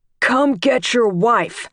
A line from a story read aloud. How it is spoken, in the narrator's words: he shouted into it